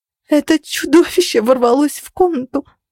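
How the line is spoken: Breathless sobbing. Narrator (Russian): задыхаясь от рыдания, рассказывала Денис, которая и сама была ранена

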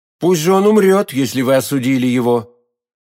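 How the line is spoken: Firm, devoted tone. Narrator (Russian): проговорил Д'Артаньян твердым тоном, показавшимся миледи исполненным безграничной преданности

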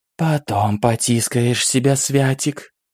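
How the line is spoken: Purring demoness. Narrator (Russian): мурлыкнула демоница

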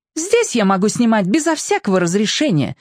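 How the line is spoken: Snapping retort. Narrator (Russian): огрызнулась Василиса

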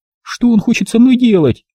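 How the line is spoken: Mournful whimper. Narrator (Russian): Тоскливо и без прежнего гонора скулила

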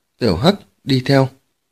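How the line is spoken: Soft. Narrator (Vietnamese): Phùng Tử Tuyết khẽ bảo Tiểu Hắc Cẩu

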